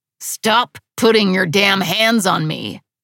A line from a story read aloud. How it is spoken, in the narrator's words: Trip growled